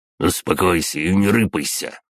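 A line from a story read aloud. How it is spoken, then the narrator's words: Driver growling. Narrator (Russian): рыкнул водитель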